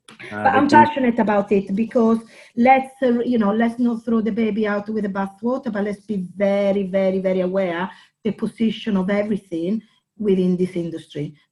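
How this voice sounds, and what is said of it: Non-native accented English. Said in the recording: “They think it's my accent... with my accent, I sometimes don't know the English words”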